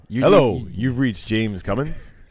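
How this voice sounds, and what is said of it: Moviefone-style movie announcer voice. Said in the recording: “you got to audition for like a movie phone, dude ... I think you could do that voice. You just did the movie guy.”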